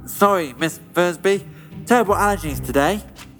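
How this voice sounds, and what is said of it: Pinched, stuffy congested voice. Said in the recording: “your voice sounds rather pinched ... You a case of the stuffies”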